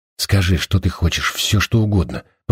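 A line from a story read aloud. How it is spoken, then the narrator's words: Whisper. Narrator (Russian): прошептал он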